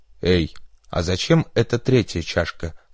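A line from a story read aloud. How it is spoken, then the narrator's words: Plain. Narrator (Russian): спросил Берри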